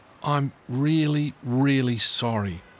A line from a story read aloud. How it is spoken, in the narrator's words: Tom said